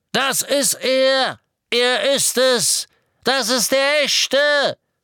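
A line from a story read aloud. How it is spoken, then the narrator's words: Hooded man shouting over engine. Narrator (German): Der Ruf des kapuzten, vermummten Todessers drang sogar über das Donnern des Motorradmotors hinweg zu Harry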